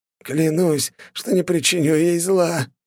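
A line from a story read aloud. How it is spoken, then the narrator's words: Hoarse wheezing. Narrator (Russian): хрипел он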